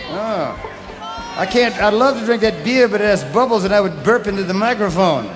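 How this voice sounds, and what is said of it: Southern American accent. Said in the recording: “I got this southern accent problem, you know, like beer.”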